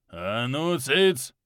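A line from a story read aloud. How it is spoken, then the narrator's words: Barked command, king. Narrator (Russian): рявкнул кёниг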